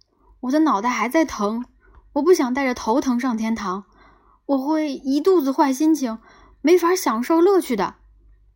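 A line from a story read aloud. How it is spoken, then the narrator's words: Shouting. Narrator (Chinese): 他喊道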